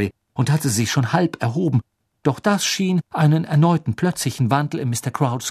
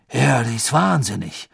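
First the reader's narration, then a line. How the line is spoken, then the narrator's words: Doubtful voice. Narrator (German): sagte Krumm mit zweifelnder Stimme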